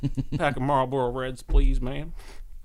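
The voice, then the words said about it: Put-on Southern accent. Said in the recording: “threw on a southern accent.”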